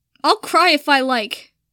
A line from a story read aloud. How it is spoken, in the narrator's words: Draco snapped, squeezing out a few more tears out of spite